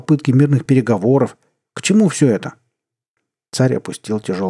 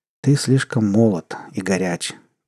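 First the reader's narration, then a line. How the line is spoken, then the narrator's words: Quiet. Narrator (Russian): тихо ответил он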